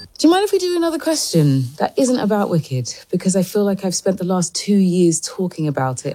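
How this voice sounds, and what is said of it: Attractive accent. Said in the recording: “I just like that accent. ... so ... sexy.”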